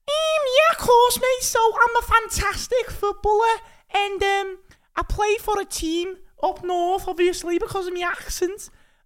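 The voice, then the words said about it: Put-on Scouse Liverpool accent. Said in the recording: “You sound Liverpudlian to me. ... Scouse. ... That's not bad, though.”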